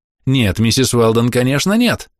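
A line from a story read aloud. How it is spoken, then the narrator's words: Young man exclaiming. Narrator (Russian): воскликнул юноша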